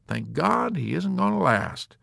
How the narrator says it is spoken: General Peckham chuckled with jaunty relish

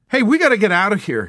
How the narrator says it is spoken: he cried

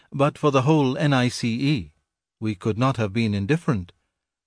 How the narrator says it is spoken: added Wither gently

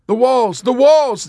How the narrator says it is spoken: the other soldier cried

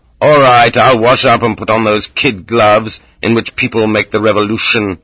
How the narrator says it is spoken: Losef growled

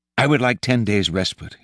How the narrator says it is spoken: he said

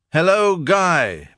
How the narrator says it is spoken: bawled Featherstone suddenly to a man in the hall beneath

